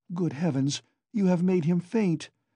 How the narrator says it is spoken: cried Pulcheria Alexandrovna

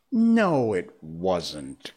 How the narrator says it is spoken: Jane said gravely

